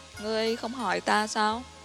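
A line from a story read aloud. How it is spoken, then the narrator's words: Sighing, trusting question. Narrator (Vietnamese): Lãnh Hạ thở dài, ... từ đầu đến cuối không có nghi ngờ một chút nào hỏi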